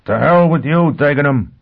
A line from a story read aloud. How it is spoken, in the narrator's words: Foyle shouted